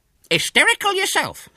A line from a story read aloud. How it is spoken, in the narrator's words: snapped the owner